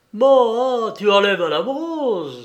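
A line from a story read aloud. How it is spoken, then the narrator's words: Exclaiming. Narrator (French): s'écria-t-il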